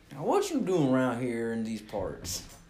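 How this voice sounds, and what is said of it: Put-on Western or Southern accent. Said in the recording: “Western talk and accent. Or at least Southern.”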